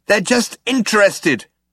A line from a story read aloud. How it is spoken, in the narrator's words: shouted Zaphod